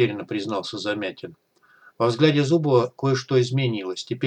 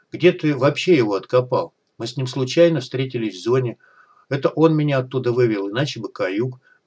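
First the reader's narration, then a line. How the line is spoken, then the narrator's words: Gloomy confession. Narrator (Russian): мрачно признался Егор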